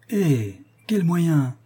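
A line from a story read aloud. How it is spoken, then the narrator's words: Exclaimed. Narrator (French): s'écria la marquise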